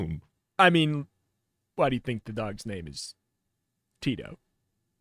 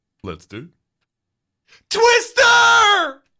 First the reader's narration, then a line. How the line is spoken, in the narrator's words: You scream